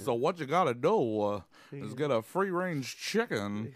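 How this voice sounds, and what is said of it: Imitates another person's voice. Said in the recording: “That's the closest I can get to Christopher Walken. ... It's a weird voice, dude.”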